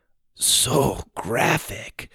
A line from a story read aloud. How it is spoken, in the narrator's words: Sawyer whispered